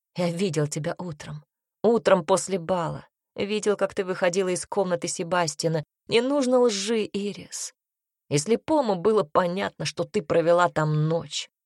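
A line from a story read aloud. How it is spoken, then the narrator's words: Hoarse. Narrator (Russian): произнес он хрипло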